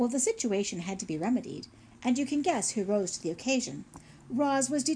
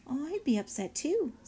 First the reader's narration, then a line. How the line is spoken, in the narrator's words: said Paddler softly